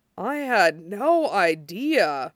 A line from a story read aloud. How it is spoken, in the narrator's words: he murmurs